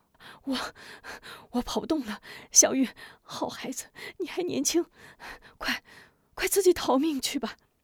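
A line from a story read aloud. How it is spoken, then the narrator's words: Breathless woman. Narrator (Chinese): 吴夫人跑得气喘吁吁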